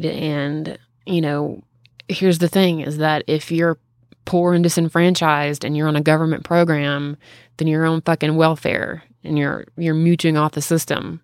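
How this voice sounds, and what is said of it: Southern US accent. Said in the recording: “talking like a Southerner right now. Jesus Christ, my accent is coming out. ... Triggered by rage. It usually comes out when I'm tired, when I've had a drink ... talk like a fucking hick”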